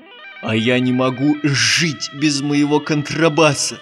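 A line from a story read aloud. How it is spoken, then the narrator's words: Offended grumbling. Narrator (Russian): ворчал обиженный Жумбурка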